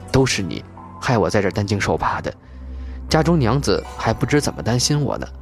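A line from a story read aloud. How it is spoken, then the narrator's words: Low, complaining. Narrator (Chinese): 吴红低声怨道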